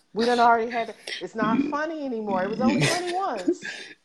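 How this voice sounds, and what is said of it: Appalachian country accent. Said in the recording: “don't start talking about my accent again ... You know, you country ... the Appalachian ... Hills”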